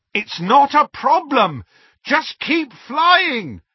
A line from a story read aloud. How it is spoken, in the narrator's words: Harry shouted back